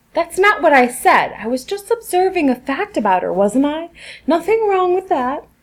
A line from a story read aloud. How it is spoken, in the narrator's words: exclaimed, defending his honor